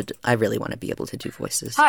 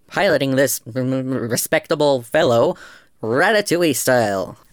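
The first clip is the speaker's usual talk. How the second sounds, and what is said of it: Robotic video-game character voice. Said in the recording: “can I do a Spamton impersonation? ... I don't think I can do the voice, but I think I can try and do the tone. ... That probably wasn't very good. I tried to sound like he was starting to say motherfucker, but then was corrected to respectable fellow in a robotic voice.”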